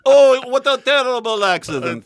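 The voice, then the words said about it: Put-on Russian accent. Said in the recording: “your Russian, your Russian accent is very good”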